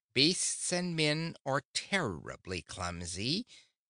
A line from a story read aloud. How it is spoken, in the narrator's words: continued the duck in an irritated voice